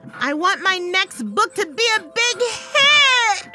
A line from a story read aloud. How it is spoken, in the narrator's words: I screamed